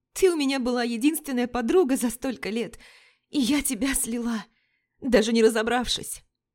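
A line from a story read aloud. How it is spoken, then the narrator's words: Coughing words through sobs. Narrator (Russian): Вика выкашливала слова сквозь рыдание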